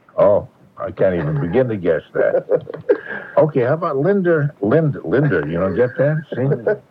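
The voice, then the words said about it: New England accent. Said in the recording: “I thought I got rid of my New England accent, but it pops out every now and then.”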